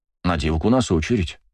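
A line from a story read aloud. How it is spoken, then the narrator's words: Thoughtful. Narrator (Russian): задумчиво произнес я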